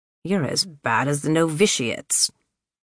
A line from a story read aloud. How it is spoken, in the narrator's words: Sister Xavier said, her tone grumpier by the minute